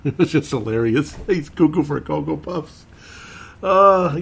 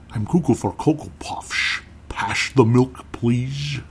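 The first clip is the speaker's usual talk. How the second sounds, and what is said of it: Imitates a famous actor's voice. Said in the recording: “Sean Connery, yep. I love you doing that imitation ... imagined Sean Connery in a Cocoa Puffs commercial”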